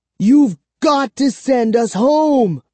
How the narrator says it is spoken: I cried to Count Nightwing

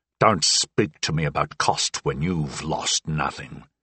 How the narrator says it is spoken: He snarled

